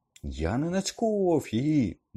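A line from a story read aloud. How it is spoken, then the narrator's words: Angry, trembling shout. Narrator (Ukrainian): вигукнув Гаррі, а його голос гнівно задрижав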